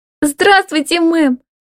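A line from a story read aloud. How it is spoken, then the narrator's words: Happy rapid chatter. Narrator (Russian): Радостно тараторит она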